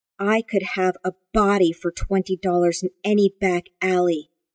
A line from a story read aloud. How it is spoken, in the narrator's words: Gar growled